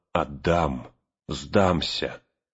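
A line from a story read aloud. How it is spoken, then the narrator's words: Hoarse, echoing, powerless oath. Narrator (Russian): гулкое эхо разносило над Авидом эту сиплую клятву бессилия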